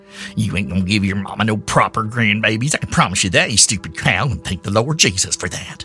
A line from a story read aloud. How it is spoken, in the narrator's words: Anise spat